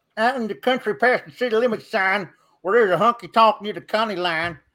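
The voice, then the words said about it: Country-accented singing character voice. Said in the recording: “with his country accent and dip to sing Boot Scoot and Boogie ... an impression of ... country character”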